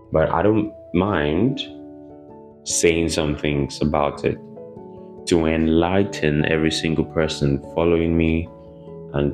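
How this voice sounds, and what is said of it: Quiet, low voice, unwell. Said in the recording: “Sorry if I'm not talking too loud. ... I'm a bit down health-wise”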